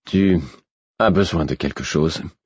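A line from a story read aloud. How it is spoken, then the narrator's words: Brusque, effortful. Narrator (French): J'avais parlé d'un ton apparemment brusque, mais en réalité, chaque parole me demandait trop d'efforts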